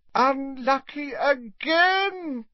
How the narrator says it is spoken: cried Slughorn dramatically

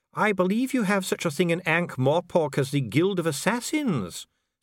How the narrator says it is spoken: said Dee calmly

